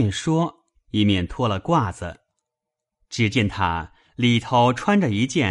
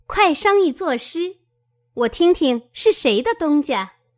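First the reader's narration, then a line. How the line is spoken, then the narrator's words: Laughing. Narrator (Chinese): 湘云笑道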